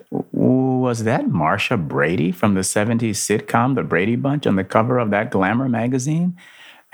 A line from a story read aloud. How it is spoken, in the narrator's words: Andrew chuckled to himself